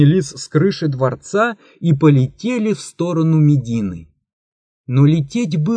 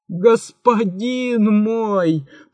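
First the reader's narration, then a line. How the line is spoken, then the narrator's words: Groaning. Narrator (Russian): простонал великий визирь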